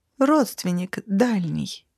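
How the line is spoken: Thoughtful correction. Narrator (Russian): задумчиво поправила я

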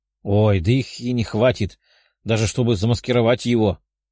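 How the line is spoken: Growling tigress. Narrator (Russian): рыкнула тигрица

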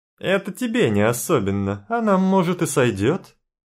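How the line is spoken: Guffawing woman. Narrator (Russian): Хохотнула женщина

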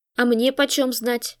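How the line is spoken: Snort from inside. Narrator (Russian): фыркнули изнутри

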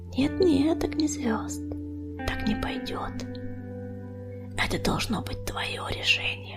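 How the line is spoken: Gently mocking whisper. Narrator (Russian): Тихий вздох коснулся его уха, и голос пестролиста прошептал с ласковой насмешкой

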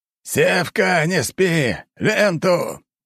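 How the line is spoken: Loud barked shout. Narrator (Russian): гаркнул Григорий Семенович

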